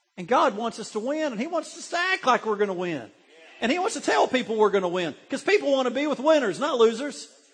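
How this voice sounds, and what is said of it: Excited preaching, screaming and squeaky. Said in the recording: “I'm almost squeaking ... I'm kind of getting Baptist-y today ... I'm screaming a little bit, and I'm not meaning to, but I'm excited”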